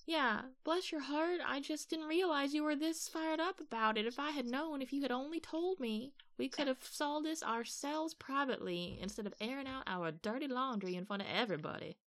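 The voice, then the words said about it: Put-on Southern accent. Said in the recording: “your southern accent are spot on”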